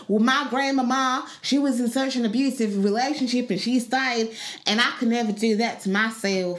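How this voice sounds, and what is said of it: Put-on accent for a Black American. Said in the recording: “I don't know why I put on the accent when it's meant to be a Black American.”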